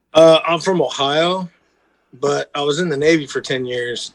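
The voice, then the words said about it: Mixed American accent with drawl. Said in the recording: “I noticed an accent. ... this like mutt accent. I have a very mutt, like, I got some draw, and there's some Midwest in there, and I got some like San Diego”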